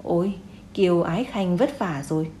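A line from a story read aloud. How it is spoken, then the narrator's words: Old emperor's kindly sigh. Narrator (Vietnamese): lão hoàng thượng thở dài, một lần nữa hòa ái nhìn về phía Kiều Dũng nói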